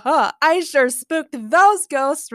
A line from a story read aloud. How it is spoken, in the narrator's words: Riddler laughed